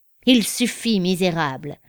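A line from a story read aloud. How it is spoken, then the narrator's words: Fortune-teller hissing through teeth. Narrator (French): siffla la cartomancienne entre ses dents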